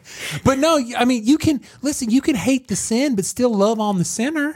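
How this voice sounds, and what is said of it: Put-on country accent. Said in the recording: “it's ten times creepier when you do it with the country accent.”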